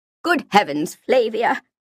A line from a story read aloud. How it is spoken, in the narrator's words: the vicar exclaimed with a start